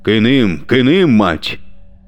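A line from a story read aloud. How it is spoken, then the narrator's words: Thundering, carriage-filling. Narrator (Russian): прогремел Ротов на весь вагон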